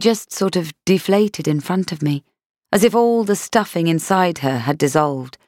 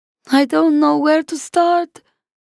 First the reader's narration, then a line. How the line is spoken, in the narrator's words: she wailed